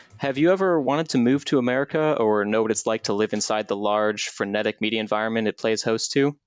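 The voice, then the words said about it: American Chicago accent. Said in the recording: “as you can tell by my accent, I'm an American, more specifically a Chicagoan”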